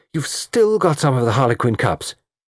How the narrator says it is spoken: she exclaimed

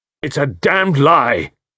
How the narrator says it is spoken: cried Carter

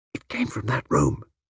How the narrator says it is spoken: she whispered

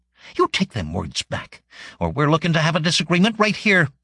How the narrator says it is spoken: she said hotly

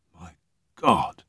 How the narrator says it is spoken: breathed Dermot

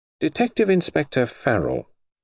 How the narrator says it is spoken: he said gently

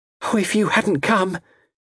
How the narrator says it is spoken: gasped

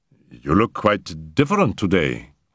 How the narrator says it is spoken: I stammered

